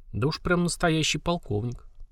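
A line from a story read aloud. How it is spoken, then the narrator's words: Muttering aloud. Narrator (Russian): вслух пробормотал землянин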